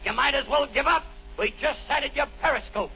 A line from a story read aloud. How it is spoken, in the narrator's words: The captain yelled back